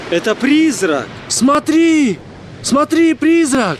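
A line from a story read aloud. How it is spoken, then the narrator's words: Shouting. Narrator (Russian): Они кричали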